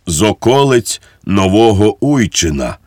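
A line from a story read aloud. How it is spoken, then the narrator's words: Sad voice, priest. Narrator (Ukrainian): смутним голосом відізвався цісарсько-королівський панотець Мартінець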